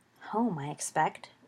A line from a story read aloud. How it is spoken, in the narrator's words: Remus said quietly